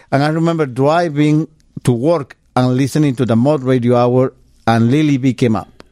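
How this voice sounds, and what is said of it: Non-native English accent. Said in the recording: “my broken English, my accent?”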